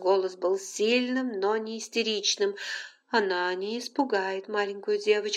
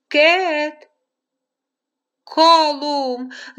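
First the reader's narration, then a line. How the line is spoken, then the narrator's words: Shouting. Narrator (Russian): закричала Розалин Фицпатрик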